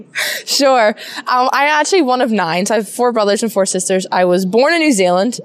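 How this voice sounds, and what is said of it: Mixed accent. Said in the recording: “you have a little bit of a mixed accent”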